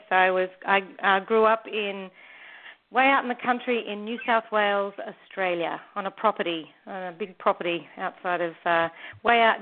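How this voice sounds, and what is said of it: Australian accent. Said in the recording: “that lovely, I do believe, am I catching it right, Australian accent”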